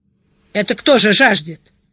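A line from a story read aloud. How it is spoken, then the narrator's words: Loud snorting question. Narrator (Russian): громко сопя спросил Шидарис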